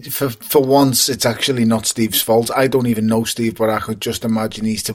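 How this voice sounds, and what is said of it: Scouse accent. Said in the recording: “your beautiful fucking Scouse accent”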